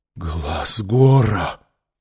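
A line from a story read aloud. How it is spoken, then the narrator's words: Breathed out. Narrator (Russian): выдохнул Иштар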